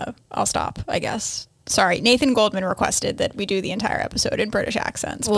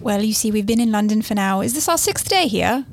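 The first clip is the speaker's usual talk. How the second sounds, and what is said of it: Put-on British accent. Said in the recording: “I seem to have picked up the accent ... She now thinks she's British.”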